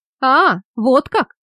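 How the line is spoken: Mocking tone. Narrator (Russian): отвечал насмешливым тоном Андре

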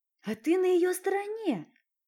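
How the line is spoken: Accusing exclamation. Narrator (Russian): обличающе воскликнул Дмитрий

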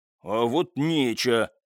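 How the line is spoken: Mumbled, toned down. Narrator (Russian): пробурчал в ответ истопник, правда, заметно сбавив тон

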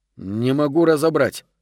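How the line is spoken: Grumbling. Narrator (Russian): проворчал Гарсия

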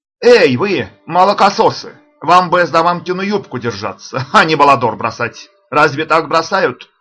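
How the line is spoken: Taunting challenge shout. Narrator (Russian): крикнул Санта-Анна, вызывая врага на открытый бой

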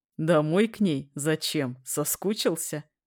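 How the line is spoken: Laughing. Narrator (Russian): хохотал Коля

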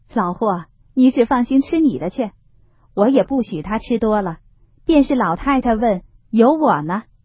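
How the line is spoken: Laughing. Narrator (Chinese): 薛姨妈笑道

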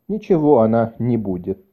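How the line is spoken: Calm reply. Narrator (Russian): отвечал капитан спокойно

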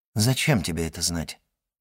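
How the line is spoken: Plain. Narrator (Russian): спросил Кавальканти

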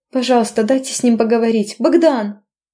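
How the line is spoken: Shouting. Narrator (Russian): Успела я крикнуть

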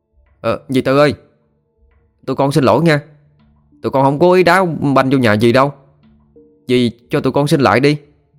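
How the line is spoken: Boy shouting. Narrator (Vietnamese): Thằng bé Toàn to béo nhất trong bọn la lên

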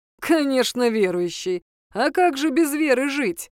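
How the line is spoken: Short laugh. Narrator (Russian): хохотнул Шелби

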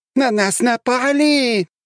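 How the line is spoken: Shrieking voices. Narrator (Russian): визжали они

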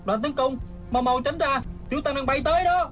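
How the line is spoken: Shouted. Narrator (Vietnamese): Hư Trúc la lên

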